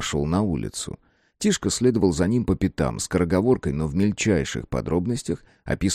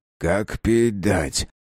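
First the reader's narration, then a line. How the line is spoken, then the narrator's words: Father, spiteful. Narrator (Russian): злобно сказал отец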